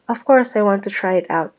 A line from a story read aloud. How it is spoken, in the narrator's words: Jeff said